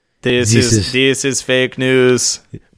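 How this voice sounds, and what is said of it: Flat, depressed put-on Austrian accent. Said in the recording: “You have to do the accent ... you have to sound less interested. You have to sound more like depressed ... Yeah, that's good ... It's like a depressed Austrian.”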